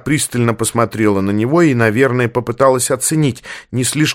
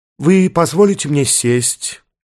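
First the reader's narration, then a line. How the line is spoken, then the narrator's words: Slightly hoarse, tired voice. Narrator (Russian): Голос чуть хрипловатый, следствие дурно проведенной ночи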